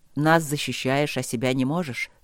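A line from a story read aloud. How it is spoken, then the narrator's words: Gloomy. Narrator (Russian): сказал он мрачно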